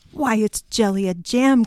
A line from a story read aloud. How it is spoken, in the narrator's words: cried the Scarecrow, recognizing the girl